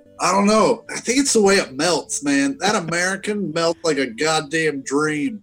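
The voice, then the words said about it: Kansas accent. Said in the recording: “You did not have that accent. As soon as I start talking about cheeseburgers, all of a sudden this motherfucking Kansas accent comes out.”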